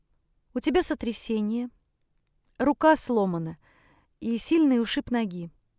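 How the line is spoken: Calm, reassuring mother. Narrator (Russian): спокойно перечисляет мать, стараясь не напугать ее

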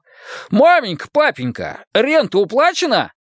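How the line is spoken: Meek, forced cheerfulness. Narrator (Russian): Матиас покорно отвечал и изо всех сил старался звучать радостно

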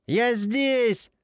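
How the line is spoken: Yelling over a siren. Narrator (Russian): заорал во все горло, пытаясь перекричать вой сирены

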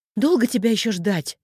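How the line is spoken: Sharp shout. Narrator (Russian): прикрикнула

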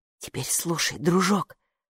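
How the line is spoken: Whisper. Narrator (Russian): шепнул Майке халат

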